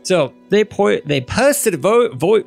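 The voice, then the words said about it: Sudden unexpected accent. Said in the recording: “Oh my god, where'd that accent come from?”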